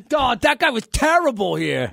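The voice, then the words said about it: Poor Boston accent. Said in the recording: “you did a Boston accent ... It wasn't good. I'm not good at accents”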